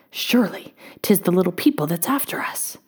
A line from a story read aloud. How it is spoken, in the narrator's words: whispered young Tom